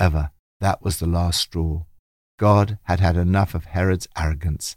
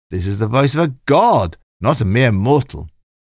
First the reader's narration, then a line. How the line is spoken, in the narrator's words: The people flattered him and shouted